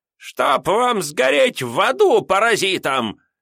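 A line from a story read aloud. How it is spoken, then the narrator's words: Old woman shouting. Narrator (Russian): выкрикнула старуха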